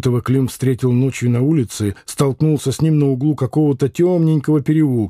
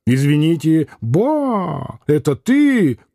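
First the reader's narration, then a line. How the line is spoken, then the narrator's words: Very loud shout. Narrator (Russian): крикнул Лютов так громко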